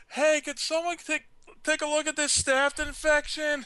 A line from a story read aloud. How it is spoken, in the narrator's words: I'd shout out